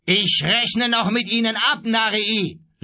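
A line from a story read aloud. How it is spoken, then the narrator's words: Called out. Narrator (German): rief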